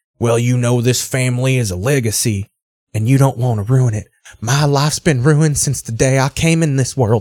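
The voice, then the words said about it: Inauthentic put-on Southern accent. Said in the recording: “every accent is just inauthentic. You can tell no one on the show actually has a Southern accent.”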